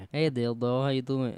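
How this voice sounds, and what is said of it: Put-on cartoonish French accent. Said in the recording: “You gotta give a little accent ... What are you, Pepe Le Pew?”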